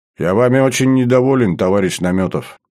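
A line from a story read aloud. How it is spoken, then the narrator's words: Suddenly stern. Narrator (Russian): вдруг строго сказал Берия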